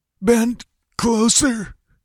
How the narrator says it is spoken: gasped Topal

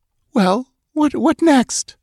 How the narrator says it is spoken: She asked in a shaky voice

